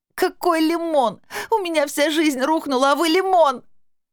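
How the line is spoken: Sobbing harder, young girl. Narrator (Russian): Еще сильнее зарыдала девчонка

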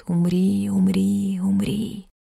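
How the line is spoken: Quiet creeping whisper. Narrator (Russian): ползет тихий шепот

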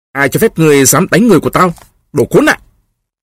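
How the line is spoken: Angry shout. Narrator (Vietnamese): Golub quát lên

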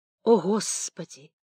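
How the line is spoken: Quiet exclamation. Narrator (Russian): тихо восклицал Бурсак

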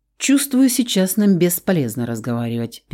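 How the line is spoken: Sharp interruption. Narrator (Russian): перебил Рауль резким тоном

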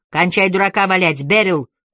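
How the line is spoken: Sharp barking shout. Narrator (Russian): рявкнула Флора Анджела

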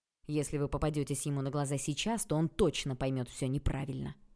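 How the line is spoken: Snorting. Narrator (Russian): хмыкнул Олег

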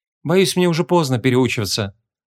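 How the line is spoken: Sighing old man. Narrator (Russian): вздохнул старый колдун

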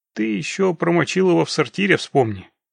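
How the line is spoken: Scoffing snort. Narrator (Russian): хмыкнул Локис

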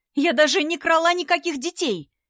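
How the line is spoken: Shout. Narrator (Russian): Крикнула она Василию

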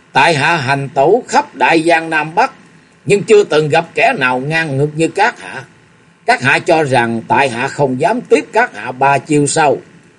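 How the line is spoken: Loud laughter, then speaking. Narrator (Vietnamese): Lục Du Kỵ cười lớn một tràng, rồi lên tiếng nói

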